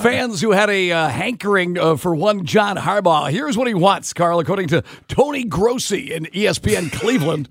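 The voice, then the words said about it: Sports announcer voice like Kent Brockmeyer. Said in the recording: “when my voice is struggling, I can always do pukey announcer voice. ... Sound like Kent Brockmeyer.”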